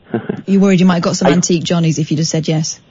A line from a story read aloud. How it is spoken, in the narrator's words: I shouted to the manager